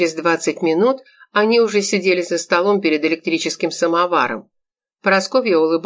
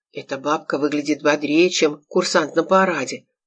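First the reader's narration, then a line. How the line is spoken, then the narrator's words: Breathy whisper in ear. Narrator (Russian): шепнул Олег, обжигая Саше на ухо придыханием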